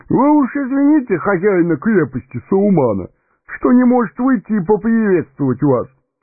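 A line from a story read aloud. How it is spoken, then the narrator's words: Giggling agreement. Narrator (Russian): Товарищ веселого привратника хихикая, поддакнул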